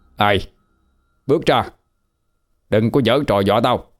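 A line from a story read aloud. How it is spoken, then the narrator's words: Frightened angry shout. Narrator (Vietnamese): Lực sợ quá hóa giận mà quát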